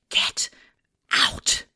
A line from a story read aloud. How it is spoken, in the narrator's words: whispered